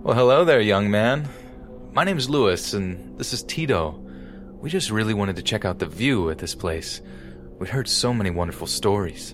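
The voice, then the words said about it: Cheery, friendly voice. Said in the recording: “said in a cheery voice”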